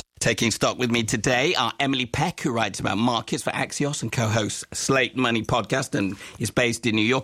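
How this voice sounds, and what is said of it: Strained, failing hoarse voice. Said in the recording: “My voice is going. ... I'll try and take it easy on you today because of your voice.”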